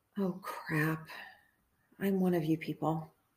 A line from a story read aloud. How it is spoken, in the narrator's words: I heard myself say, under my breath, with resignation